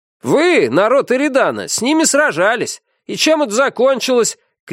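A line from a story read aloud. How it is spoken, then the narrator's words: Shout. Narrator (Russian): крикнул кто-то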